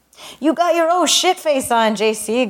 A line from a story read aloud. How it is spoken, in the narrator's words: Gus laughed